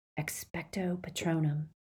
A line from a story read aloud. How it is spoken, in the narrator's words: he whispered